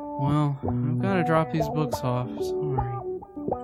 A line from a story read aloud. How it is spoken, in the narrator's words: Lincoln said in a bashful tone